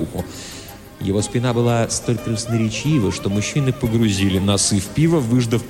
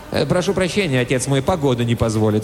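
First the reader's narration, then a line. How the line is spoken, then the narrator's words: Plain. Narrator (Russian): сказал Нолан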